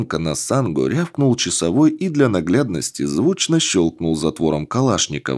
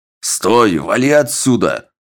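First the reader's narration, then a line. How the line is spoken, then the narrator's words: Sentry's bark in French. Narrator (Russian): На французском гаркнул часовой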